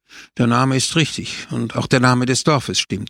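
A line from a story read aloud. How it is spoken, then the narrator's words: Called out. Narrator (German): rief er aus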